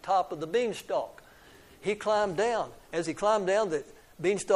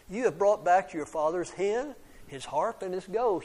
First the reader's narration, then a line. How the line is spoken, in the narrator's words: she said